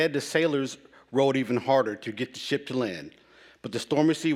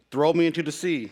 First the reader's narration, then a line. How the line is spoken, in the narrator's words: said Jonah